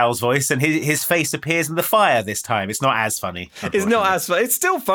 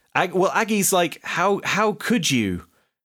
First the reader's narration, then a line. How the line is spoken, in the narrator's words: She says this slowly because an evil spell is freezing her